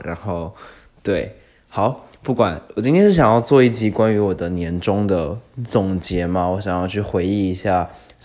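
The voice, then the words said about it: Quiet, lowered speaking voice. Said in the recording (Chinese): “我的声音怎么有种我没有刻意在压低我的声音，但是的确我的。家人已经睡觉了，所以我要尽力小声的说话”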